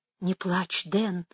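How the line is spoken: Soothing whisper. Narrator (Russian): зашептала Мэгги

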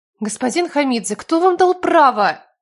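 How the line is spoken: Indignant. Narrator (Russian): Начала она возмущенно

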